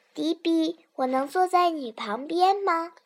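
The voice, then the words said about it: Soft, quiet child's question. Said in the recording (Chinese): “小声的问他”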